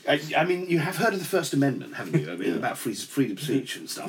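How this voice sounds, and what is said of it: English accent. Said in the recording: “Is he speaking in an English accent?”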